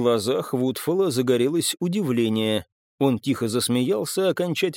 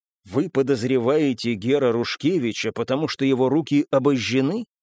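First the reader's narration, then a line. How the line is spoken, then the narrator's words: Plain. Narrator (Russian): спросил я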